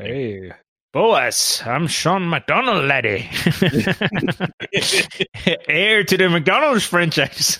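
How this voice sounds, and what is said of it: Thick put-on Scottish accent. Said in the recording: “that real thick Scottish accent”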